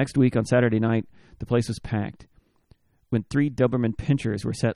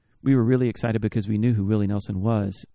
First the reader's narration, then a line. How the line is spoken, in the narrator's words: Ray said